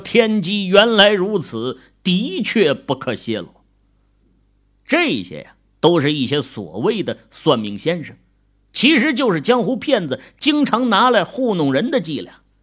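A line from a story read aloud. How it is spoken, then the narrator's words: Laughing heartily. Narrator (Chinese): 徒弟听后哈哈大笑，说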